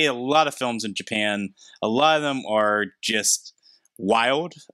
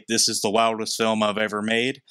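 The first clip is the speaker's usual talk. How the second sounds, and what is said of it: Put-on Southern American accent. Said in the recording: “I gave him a Southern accent”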